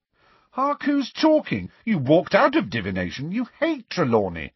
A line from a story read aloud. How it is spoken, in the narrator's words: said Ron indignantly